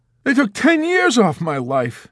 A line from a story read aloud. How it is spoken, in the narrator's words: Dunbar exclaimed